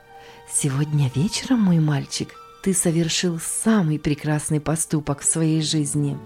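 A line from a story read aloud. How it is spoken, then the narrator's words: Whisper. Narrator (Russian): Госпожа Логман прошептала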